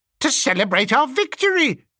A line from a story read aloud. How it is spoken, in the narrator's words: cried Squealer